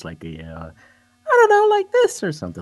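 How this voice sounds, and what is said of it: High-pitched voice. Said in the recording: “talk in a higher voice, ... Like a Michael Jackson.”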